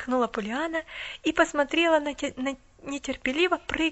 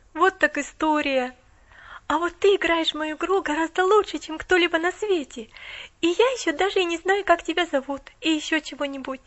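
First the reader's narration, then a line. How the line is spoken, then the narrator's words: Awed exclamation. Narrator (Russian): Воскликнула Поллианна с благоговейным страхом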